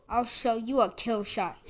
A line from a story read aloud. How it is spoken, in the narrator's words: he growled